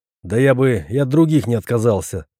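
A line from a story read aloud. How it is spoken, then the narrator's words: Angry speech. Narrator (Russian): зло сказал енот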